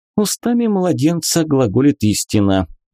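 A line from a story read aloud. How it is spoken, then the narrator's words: Grumbling. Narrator (Russian): пробурчала она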